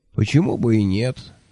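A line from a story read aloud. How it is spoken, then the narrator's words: Tired agreement. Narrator (Russian): устало согласился Кофа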